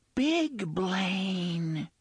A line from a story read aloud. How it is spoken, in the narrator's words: the unseen voice whispered